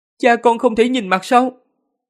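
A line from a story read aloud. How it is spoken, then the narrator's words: Loud question. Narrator (Vietnamese): Tần Mục lớn tiếng hỏi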